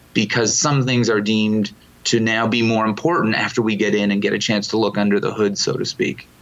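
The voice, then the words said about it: Canadian accent with small-town twang. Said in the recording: “I picked up in your answer an accent ... I am a Canadian ... a little bit of small town twang probably in there as well”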